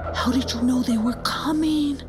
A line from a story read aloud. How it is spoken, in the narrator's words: He whispered to Namizi